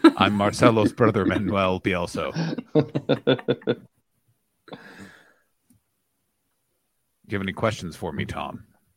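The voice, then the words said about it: Imitates another person's voice. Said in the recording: “I'll do his voice”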